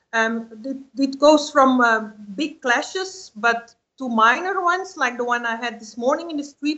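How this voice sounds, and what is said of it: Non-native English accent. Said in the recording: “I do not speak very well English myself, and you hear my accent”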